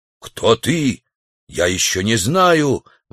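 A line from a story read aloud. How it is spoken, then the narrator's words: Exclamation. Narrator (Russian): воскликнул дикарь в трусах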